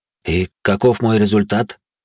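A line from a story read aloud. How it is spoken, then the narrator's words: Hoarse, trembling question. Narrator (Russian): хриплым голосом поинтересовался я, пытаясь обуздать пронизывающую каждую клеточку тела дрожь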